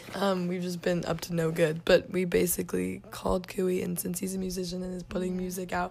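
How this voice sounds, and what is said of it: Hoarse, failing voice. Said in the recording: “why is my voice dying? ... My voice is dead.”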